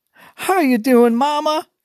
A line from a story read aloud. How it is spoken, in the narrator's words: she cried on the woman's shoulders